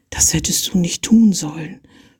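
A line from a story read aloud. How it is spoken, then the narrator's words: Whispered. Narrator (German): flüsterte sie ihm zu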